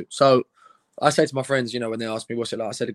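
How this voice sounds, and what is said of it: Non-local accent. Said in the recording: “you are obviously not from here, with a wonderful accent”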